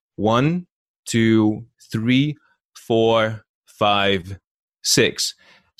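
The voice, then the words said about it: Counting, voice louder after three. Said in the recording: “after the number three, I'm going to like put on these muscles... do add to a louder voice”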